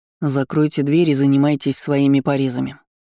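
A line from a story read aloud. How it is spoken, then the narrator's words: Indifferent voice. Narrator (Russian): безразличным голосом произнес Кайден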